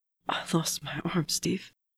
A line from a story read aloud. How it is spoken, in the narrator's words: choked